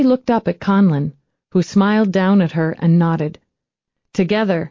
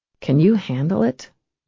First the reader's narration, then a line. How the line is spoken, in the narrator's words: she asked gently